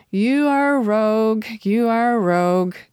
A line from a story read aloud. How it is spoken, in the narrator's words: he whined like a child, saying